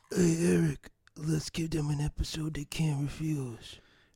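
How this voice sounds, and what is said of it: Imitates another person's voice. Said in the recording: “do a quick Marlon Brando impression”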